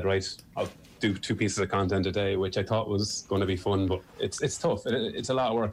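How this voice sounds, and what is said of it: Irish Midlands accent. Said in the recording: “they were going on about my accent. They were like, oh, it's really good for meditation ... The Midlands accent is always seen as the kind of, it's okay ... it's certainly not the lilt of a Cork accent or a Kerry or Dublin accent ... the Niall Horan, Michael O'Leary kind of area. It's not high in the list of loved accents”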